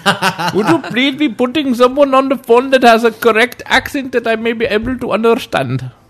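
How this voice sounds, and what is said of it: Imitated Indian accent. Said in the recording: “they're from India”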